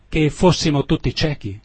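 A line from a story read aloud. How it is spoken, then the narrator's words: Exclaiming. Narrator (Italian): esclamò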